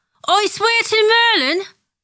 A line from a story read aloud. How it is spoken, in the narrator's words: Ron bellows